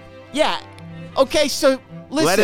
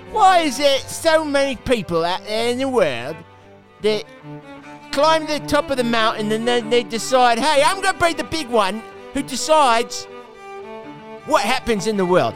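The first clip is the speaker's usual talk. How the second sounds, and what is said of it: Put-on Cockney accent. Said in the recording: “Do it in a Cockney accent.”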